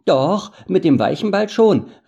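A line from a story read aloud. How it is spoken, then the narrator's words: Called out. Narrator (German): rief Sam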